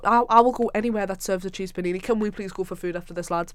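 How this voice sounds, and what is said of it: Sunderland Mackem accent. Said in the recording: “our loud, annoying Macam accents ... I had a proper Shields accent before I moved to Sunderland ... Now I sound like a proper Macam”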